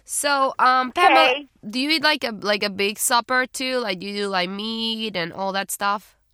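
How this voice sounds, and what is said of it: South American accent. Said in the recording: “got an accent. She's from South. She's from South America.”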